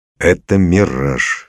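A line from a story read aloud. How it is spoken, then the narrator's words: Calm. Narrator (Russian): спокойно сказал Максютов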